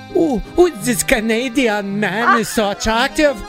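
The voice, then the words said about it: Poor Eastern European accent. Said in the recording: “I can't even do Eastern European ... That's the worst accent.”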